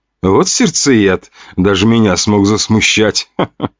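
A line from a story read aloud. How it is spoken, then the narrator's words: Woman laughing loudly. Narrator (Russian): Хохотала женщина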